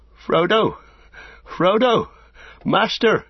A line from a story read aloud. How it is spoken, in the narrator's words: he cried, half-sobbing